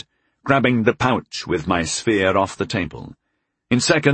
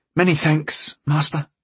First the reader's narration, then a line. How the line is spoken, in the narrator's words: gasped gratefully